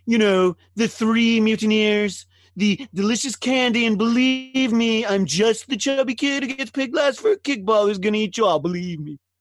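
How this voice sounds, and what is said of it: Donald Trump impression. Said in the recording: “Any excuse to do a Trump impression”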